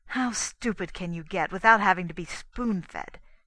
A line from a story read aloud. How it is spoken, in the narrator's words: snapped